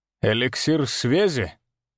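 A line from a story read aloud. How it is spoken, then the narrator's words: Contemptuous snort. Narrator (Russian): Он презрительно хмыкнул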